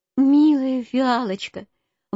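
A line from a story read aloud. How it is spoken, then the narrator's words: Exclaiming. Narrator (Russian): воскликнул медвежонок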